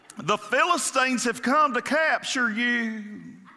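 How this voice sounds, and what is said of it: Put-on Southern accent. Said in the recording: “in the southern accent”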